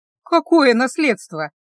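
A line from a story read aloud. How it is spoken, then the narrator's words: Laughing. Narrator (Russian): рассмеялась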